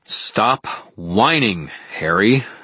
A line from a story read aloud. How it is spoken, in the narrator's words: I said in a firm, loud voice